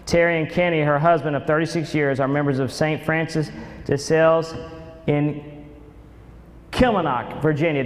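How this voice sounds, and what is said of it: Oklahoma accent. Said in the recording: “That's my Oklahoma accent.”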